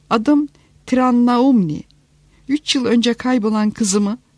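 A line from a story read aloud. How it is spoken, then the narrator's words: Embarrassed stammering. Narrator (Turkish): Oldukça sıkılgan bir halde, kekeleyerek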